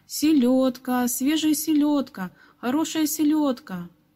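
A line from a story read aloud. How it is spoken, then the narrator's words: Ringing street cry. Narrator (Russian): крича звонким голосом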